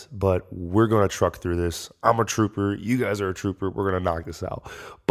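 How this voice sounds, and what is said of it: Nasal, congested voice. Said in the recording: “I sound a little nasally”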